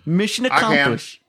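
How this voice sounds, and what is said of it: Imitates another person's voice. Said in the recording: “I can't do a Bush impression... I can't do it. I can't do impressions very well.”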